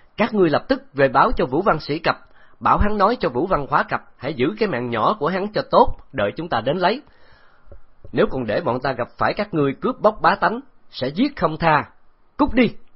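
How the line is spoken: Loud shout. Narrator (Vietnamese): Từ Tử Lăng lớn tiếng quát

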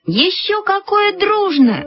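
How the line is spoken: Exclaimed in unison. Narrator (Russian): воскликнули мы с Люськой в один голос

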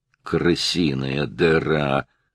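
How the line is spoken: Grumbling. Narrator (Russian): ворчал Стоун

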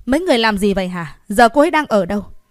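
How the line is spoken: Angry loud scolding. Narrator (Vietnamese): Vu Ba tức giận mắng to

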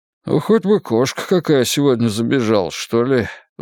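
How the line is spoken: Sighing. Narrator (Russian): вздохнул Коди

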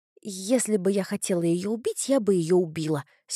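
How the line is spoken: Angry. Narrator (Russian): сердито сказала

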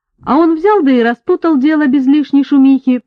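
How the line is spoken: Cheerful. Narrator (Russian): подхватил весело

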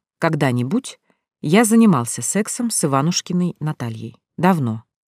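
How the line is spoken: Calm reply. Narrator (Russian): спокойно отозвался Равиль

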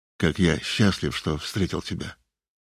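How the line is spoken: Soft. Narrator (Russian): сказал он мягко

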